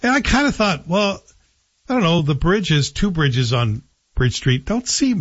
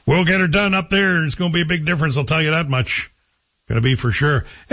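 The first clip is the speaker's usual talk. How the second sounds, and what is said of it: Put-on local small-town accent. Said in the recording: “I'm doing my Manitic accent because that's how I remember it being told to me”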